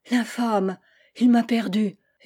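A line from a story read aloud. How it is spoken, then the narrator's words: Exclaiming. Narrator (French): s'écria la duchesse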